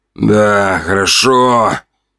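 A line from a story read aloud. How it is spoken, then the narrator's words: Grumbled mutter in ear. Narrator (Russian): буркнул он мне на ухо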